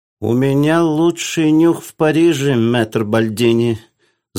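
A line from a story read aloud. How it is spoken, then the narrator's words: Lisping. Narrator (Russian): зашепелявил Гриной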